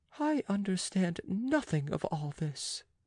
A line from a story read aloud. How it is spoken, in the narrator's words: murmuring